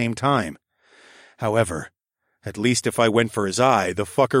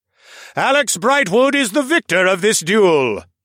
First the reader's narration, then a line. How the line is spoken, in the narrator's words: Lord Mech congratulated